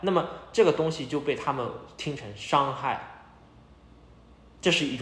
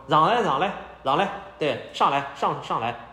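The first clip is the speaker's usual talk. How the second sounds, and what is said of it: Imitated Shanghainese dialect speech. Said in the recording (Chinese): “他用上海话说”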